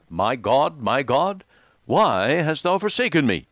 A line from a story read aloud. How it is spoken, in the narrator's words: when Jesus cried out